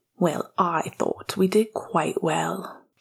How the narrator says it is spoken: he said to Remus more quietly

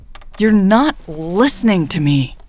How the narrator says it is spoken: Jade exclaimed

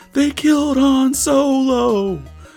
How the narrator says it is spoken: like just screamed it

